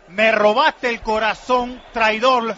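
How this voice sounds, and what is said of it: Put-on Mexican accent. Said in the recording (Spanish): “¿Y por qué lo dice con ese acento? ... Si es canario, no mexicano.”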